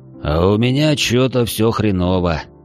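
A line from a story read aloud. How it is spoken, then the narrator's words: Sigh. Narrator (Russian): вздохнул новоявленный модник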